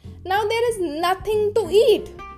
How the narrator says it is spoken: they cried

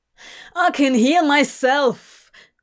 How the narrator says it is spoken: Crowley shouted, furious

